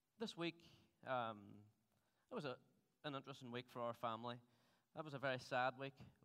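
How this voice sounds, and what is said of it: Strong regional accent. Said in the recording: “this agonizing Dunamana accent”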